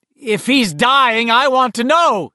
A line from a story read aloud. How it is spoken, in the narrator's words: his mother was bellowing